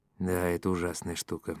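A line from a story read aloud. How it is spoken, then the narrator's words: Sighed. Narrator (Russian): вздохнул Долги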